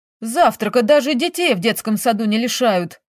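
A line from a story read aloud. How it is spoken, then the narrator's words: Exclaimed. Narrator (Russian): воскликнул Шура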